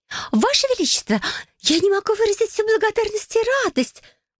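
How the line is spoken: Excited exclamation. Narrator (Russian): Возбужденно воскликнула Малика

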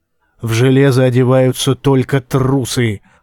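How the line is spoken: Growling. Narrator (Russian): прорычал он

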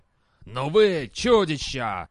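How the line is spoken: Shouting. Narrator (Russian): крикнул он

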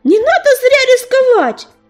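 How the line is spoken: Yelling after them. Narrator (Russian): заорал им вслед ежевика

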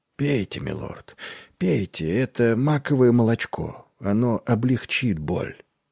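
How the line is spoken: Whisper. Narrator (Russian): Он шептал

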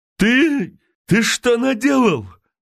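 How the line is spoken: Choked, swollen-voiced shout. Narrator (Russian): набухшим голосом крикнул Михеев

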